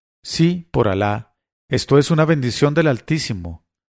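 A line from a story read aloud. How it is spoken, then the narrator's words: A lady's exclamation. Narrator (Spanish): la dama exclamó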